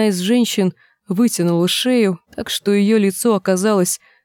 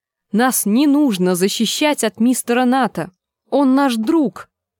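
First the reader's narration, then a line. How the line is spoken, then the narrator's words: Exclamation. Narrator (Russian): воскликнула Гленда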